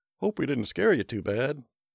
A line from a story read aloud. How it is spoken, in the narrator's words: he laughed